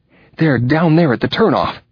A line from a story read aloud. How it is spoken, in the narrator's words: Winslow gasped, wheezing with his running